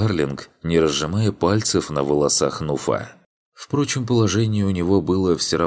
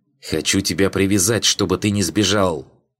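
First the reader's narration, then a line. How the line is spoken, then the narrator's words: Hissed reply. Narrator (Russian): прошипел в ответ Юнга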